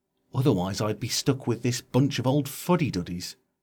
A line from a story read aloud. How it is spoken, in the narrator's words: quietly into her ear continued